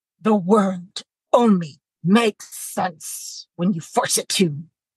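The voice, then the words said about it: Attempted Batman voice. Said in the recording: “read this sentence in a Batman voice”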